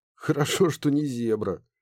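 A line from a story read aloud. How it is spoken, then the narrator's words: Snorting. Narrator (Russian): хмыкнул Ларс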